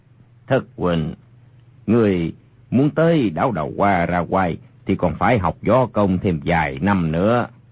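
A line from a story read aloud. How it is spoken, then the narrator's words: Cold scoffing. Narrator (Vietnamese): Hoàng Dược Sư cười nhạt một tiếng, nói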